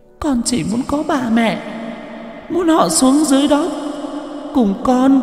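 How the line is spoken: Sudden tearful whimper. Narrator (Vietnamese): Đột nhiên, giọng của Linh mếu máo

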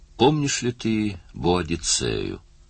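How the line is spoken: Purring. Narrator (Russian): промурлыкала Лейла

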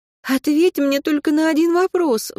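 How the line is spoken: Pleading. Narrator (Russian): взмолилась она

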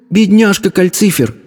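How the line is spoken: Exclamation. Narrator (Russian): воскликнула Софи

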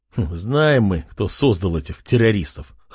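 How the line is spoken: Snort. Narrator (Russian): хмыкнул Артем

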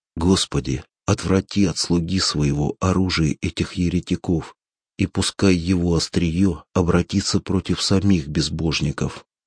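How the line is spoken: Quietly to himself. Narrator (Russian): Тихо сказал я про себя

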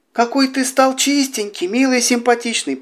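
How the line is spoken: Cooing old woman. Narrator (Russian): проворковала старушка

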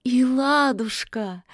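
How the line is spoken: Joyful witch's exclamation. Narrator (Russian): радостно воскликнула ведьма

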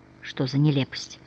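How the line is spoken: Whisper. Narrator (Russian): прошептала Софи

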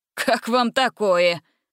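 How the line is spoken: Chuckling. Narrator (Russian): хохотнул предводитель разбойников

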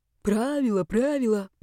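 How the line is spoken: Grumble. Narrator (Russian): проворчал он

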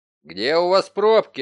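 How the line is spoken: Barking. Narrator (Russian): рявкнул Данди

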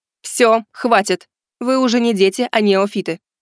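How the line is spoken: Stern. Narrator (Russian): строго сказала Кинг Жао

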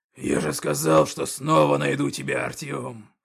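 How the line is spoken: Orc growling. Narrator (Russian): прорычал орк

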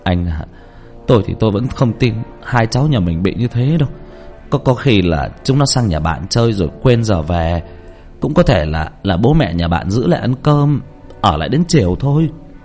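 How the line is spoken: Choked-up father. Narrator (Vietnamese): Bố của thằng Tuấn nghẹn ngào nói với bố của thằng Ân

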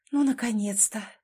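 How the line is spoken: Whisper. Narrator (Russian): прошептала она

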